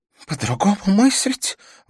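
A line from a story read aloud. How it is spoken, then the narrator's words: Breathless, breaking into sobs. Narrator (Russian): выдохнула мадам Рамирес и, уже не сдерживаясь, зарыдала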